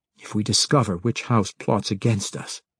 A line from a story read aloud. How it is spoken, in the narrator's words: Drizzt said quietly